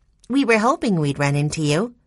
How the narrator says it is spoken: Violet told her cheerfully

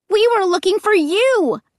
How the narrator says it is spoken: I cried

